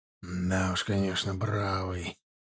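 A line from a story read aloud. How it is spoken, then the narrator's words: Grumbling mutter. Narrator (Russian): пробурчал зашивающий в мундире прореху Кошелев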